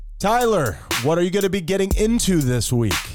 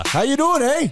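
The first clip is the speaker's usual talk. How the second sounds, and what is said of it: Forced Canadian accent. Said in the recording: “You just had to force your Canadian accent in there.”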